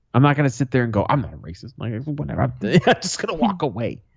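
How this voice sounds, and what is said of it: Speaks with a regional accent. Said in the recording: “Usually my accent gives it. People don't think I'm racist because I have an accent. ... because I sound poor.”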